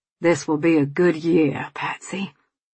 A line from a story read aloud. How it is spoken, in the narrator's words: Tom said